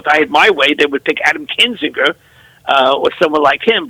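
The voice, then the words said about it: New York City accent. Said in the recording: “his really cool accent,... he's a native of the New York City area”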